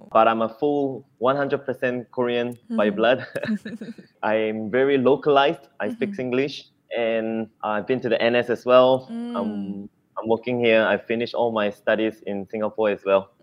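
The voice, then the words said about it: Korean accent in English. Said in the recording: “you gave us a little bit of some taste of your Korean accent”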